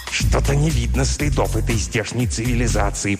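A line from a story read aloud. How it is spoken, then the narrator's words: Hiss. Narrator (Russian): прошипел, наконец, Пвгдрк, обращаясь к Нгтрксу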